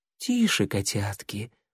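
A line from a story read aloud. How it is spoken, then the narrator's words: Purring cat. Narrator (Russian): промурлыкала белая кошка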